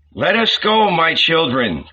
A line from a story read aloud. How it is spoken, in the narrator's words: cried the old rabbi